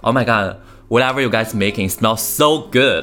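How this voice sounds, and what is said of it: Exaggerated American accent, heavy endings. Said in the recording (Chinese): “美国人的口音，她总会 ... 很 ... 夸张 ... 你知道就那个后音就发的 ... 非常厚啊”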